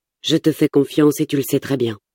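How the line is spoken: Plain. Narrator (French): dit-il

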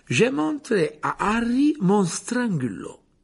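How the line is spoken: Playful, bantering. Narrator (French): dit Lupin d'un ton badin

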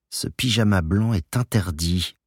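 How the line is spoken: Murmured between kisses. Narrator (French): avait-il murmuré entre deux baisers

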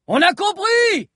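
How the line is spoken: Audience shouting. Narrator (French): cria la salle

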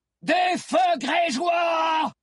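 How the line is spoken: Yelling. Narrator (French): hurla Akan

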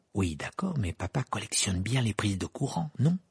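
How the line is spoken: Low voice. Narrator (French): dit Fred à voix basse

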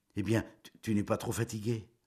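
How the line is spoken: Stammering. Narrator (French): Elle balbutia

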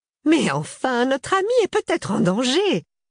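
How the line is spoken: Exclamation. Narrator (French): s'écrie Joséphine

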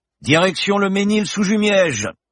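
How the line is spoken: Shouted. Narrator (French): cria Berton

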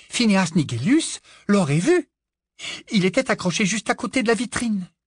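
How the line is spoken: Breathless voice. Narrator (French): dit-elle d'une voix essoufflée

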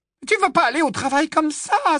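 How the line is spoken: Exclaiming. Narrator (French): s'écria Hermione

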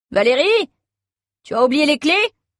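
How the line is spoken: Shouting. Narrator (French): crie Charline

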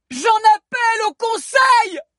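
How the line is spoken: Shouted as loud as possible. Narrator (French): cria Zizou aussi fort qu'il le pouvait

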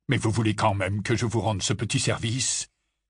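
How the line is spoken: Growled. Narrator (French): gronda Rogue

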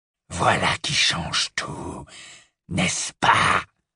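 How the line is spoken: Murmured. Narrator (French): murmura Greybac

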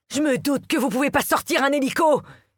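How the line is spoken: Yelling. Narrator (French): hurle

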